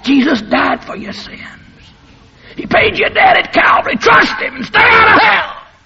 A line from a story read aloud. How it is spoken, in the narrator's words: God screams back